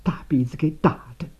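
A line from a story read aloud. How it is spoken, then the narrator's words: Trembling voice. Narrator (Chinese): 大妞颤声地说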